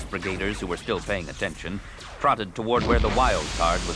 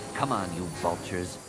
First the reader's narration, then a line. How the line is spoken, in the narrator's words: Anakin muttered